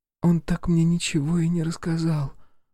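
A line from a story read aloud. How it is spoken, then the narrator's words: Breathy exhale. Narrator (Russian): выдохнула Алиса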